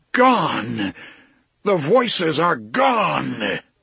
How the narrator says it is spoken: suddenly he yelled at the sky in a fair, strong voice

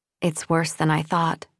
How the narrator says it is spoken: Mieka whispered

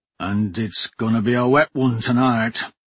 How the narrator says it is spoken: the dwarf grumbled

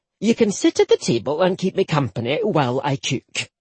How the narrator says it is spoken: Mavis said brightly

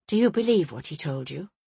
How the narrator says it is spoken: she asked quietly

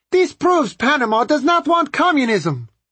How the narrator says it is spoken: one large and beery lady, more full of political spirit than political savvy, leaned halfway out of her car window and shrieked

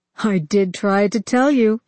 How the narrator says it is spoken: cried, his voice rising above the din of battle

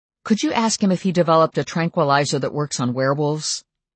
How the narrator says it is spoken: His voice sharpened

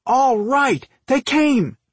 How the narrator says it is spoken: Dolph exclaimed

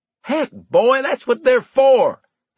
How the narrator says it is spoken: he shouted at me, exasperated

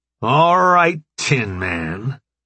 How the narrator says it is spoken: Jones's voice boomed in the ill-lit cave

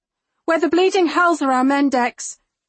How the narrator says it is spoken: I shout over the cacophony

